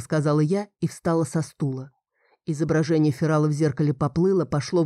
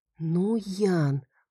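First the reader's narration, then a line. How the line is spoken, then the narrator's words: Muttering. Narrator (Russian): пробормотала я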